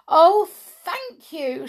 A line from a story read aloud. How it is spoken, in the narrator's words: she cried